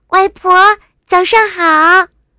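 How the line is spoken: Loud. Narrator (Chinese): 他大声的说

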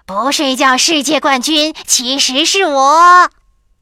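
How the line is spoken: Shouting. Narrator (Chinese): 霹雳鼠也大叫着

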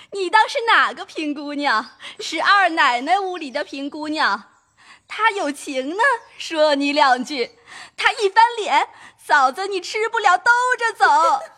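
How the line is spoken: Crowd laughing. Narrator (Chinese): 众人笑道

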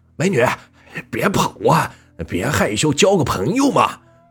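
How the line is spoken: Brazen shouting while chasing. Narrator (Chinese): 他们边喊边追，越来越放肆的喊着

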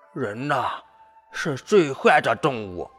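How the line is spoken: Angry. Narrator (Chinese): 骆驼…愤怒地说道

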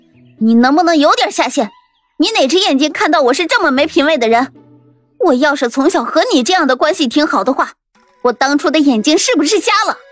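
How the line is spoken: Angry. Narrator (Chinese): 桃子顿时就怒了

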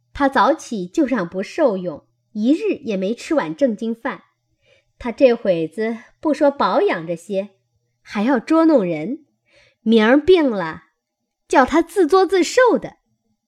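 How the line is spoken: Laughing. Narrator (Chinese): 麝月笑道

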